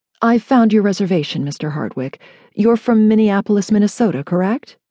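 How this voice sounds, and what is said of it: Formal, professional tone. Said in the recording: “in her most professional voice.”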